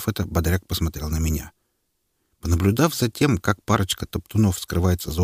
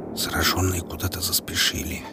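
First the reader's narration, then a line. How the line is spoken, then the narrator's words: Whispered. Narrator (Russian): прошептал лейтенант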